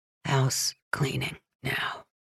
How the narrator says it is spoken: Deke whispers

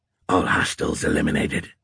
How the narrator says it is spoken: he growled

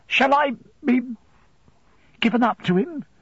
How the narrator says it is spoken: I faltered

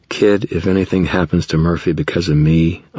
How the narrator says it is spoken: I sighed

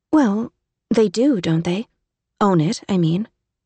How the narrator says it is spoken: said Emmy

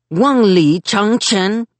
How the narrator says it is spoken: he called out

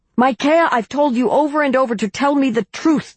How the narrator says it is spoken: Ahab shouted

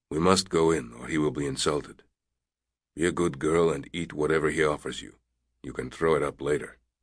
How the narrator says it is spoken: Ari whispered to Kitty

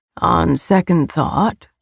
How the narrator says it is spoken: his voice was full of smoke, a decadent drawl

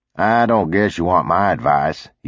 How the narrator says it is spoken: he said

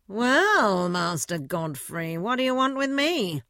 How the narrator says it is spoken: said Duntsey in a mocking tone

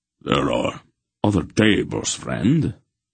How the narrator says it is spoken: Manderolin said coldly

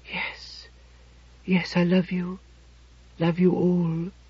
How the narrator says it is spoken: She breathed deeply, whispered aloud

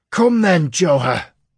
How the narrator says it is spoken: he screamed, madness in his voice

